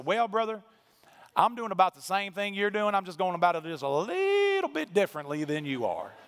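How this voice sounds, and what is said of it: Exaggerated country accent. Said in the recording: “in the most country accent I possibly could”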